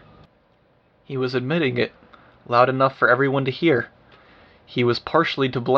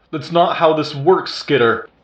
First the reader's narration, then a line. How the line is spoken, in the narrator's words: Defiant shouted